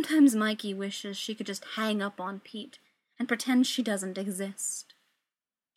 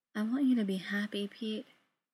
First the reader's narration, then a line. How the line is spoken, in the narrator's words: Mikey says softly